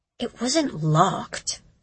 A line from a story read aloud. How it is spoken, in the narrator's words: she muttered, scowling